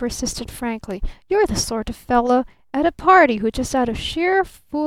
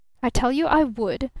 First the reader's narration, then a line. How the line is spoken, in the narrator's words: snapped the younger man